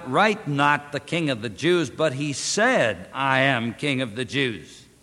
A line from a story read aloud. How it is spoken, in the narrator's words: Pilate answered